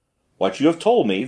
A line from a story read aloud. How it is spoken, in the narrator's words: the official replied